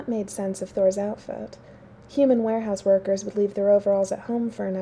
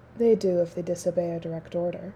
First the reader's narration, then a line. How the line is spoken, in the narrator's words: Thor said